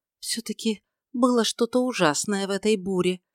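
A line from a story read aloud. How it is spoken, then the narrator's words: Whisper. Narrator (Russian): прошептала она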